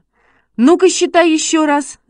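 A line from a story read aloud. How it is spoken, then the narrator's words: Shouting. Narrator (Russian): закричал Шишкин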